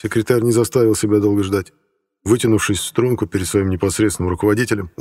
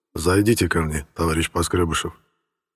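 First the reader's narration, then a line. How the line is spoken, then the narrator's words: Muffled, dull voice. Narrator (Russian): Сталин глухо произнес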